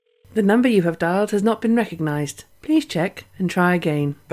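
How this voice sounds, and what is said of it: Posh BT phone announcer voice. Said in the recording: “do the voice of the BT announcer on the phone, you know, the woman that does all the posh voices”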